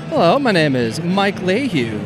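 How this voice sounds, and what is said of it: Smooth radio-announcer voice. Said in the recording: “radio voice. He's got radio voice.”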